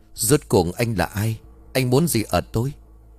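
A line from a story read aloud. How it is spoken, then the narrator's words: Low voice, suppressed fear. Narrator (Vietnamese): Tên luyện ngài cứng họng, hắn đè nén sự sợ hãi, hạ giọng xuống rồi hỏi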